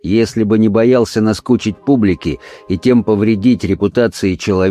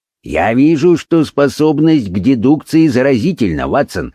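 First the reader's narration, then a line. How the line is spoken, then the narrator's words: Plain. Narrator (Russian): ответил он мне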